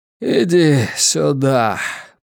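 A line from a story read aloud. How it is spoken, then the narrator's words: Old man rasping. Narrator (Russian): прохрипел старик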